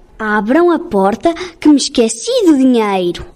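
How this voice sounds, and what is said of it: Wolf faking a mother goat's voice. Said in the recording (Portuguese): “imitando a voz da cabra”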